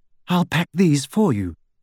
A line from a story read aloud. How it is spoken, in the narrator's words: Hermione said brightly